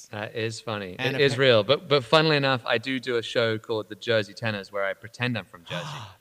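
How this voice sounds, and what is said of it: Genuine British accent. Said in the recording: “You need a real Brit like ... we assure you the accent is real. ... I am genuinely a Brit.”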